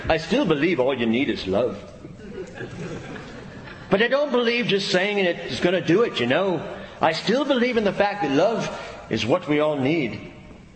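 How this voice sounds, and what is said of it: Put-on British or Irish accent. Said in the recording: “a British or Irish accent. I'm working on it.”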